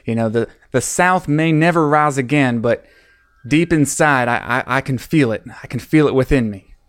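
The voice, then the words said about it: Southern US accent. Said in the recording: “That's pretty good. ... That's actually an accent that I actually have somewhere deeply suppressed. That's actually not me doing a special voice.”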